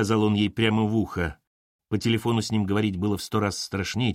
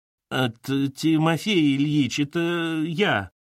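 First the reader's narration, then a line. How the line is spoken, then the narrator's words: Timid stumbling mumble. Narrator (Russian): Робко промямлила Катерина, запнувшись на его имени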